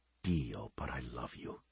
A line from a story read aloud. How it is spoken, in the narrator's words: he whispered